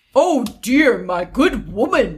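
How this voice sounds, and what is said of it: Put-on Irish male voice. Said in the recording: “I'm gonna do my man voice ... The Southern Irish ... That's Irish. That's Irish.”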